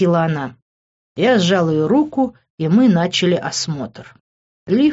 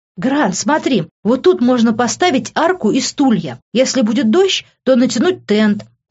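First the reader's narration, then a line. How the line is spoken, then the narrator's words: Exclaiming. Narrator (Russian): воскликнула она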